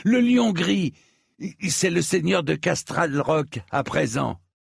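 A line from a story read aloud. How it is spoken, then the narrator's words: Exclaimed. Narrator (French): s'écria-t-il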